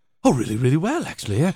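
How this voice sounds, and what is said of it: Imitates another person's voice. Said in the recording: “this is a horrible Anthony Hopkins impersonation ... I don't think it's a bad Anthony Hopkins.”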